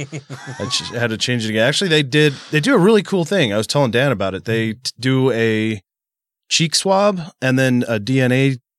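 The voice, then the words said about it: Stuffy, congested voice. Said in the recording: “I sound stuffy ... My whole face is stuffed”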